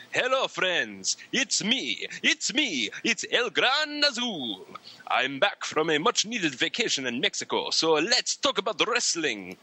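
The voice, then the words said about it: Put-on accent with Transylvanian, vampire-like tinge. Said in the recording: “Why do you sound like a vampire? ... there was a little Transylvanian in my accent”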